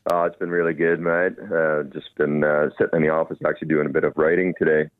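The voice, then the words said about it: Slight Canadian accent. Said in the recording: “I detect a bit of an accent there ... I'm originally from Canada. I've been here in Australia for 12 years now.”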